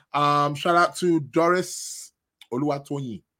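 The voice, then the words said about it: Put-on Nigerian accent. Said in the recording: “I have to put on my Nigerian accent there. Got to put on my Nigerian spin there.”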